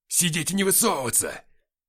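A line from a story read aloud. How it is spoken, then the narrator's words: Barked order. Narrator (Russian): рявкнул Дементьев на солдат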